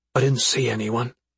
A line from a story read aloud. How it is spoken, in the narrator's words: Dezol whispered